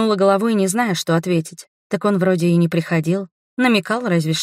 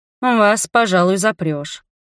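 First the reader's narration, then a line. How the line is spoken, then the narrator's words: Grumbling. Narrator (Russian): проворчал он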